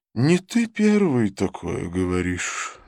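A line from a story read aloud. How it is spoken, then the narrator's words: Aunt sighing. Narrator (Russian): вздохнула тетушка Луна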